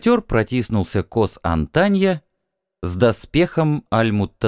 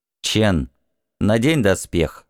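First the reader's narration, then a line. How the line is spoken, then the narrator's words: Plain. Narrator (Russian): сказала Асахиро Ли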